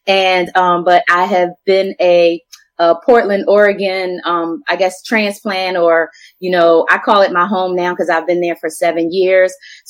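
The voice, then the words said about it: Philadelphia accent. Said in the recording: “I'm a Philly girl, in case you can't tell from my accent.”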